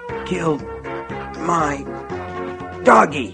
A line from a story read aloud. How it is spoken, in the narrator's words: Nettie gasped, spitting a fine mist of blood into Wilma's upturned face with every word